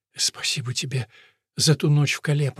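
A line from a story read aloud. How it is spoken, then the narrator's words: Whisper. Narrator (Russian): прошептала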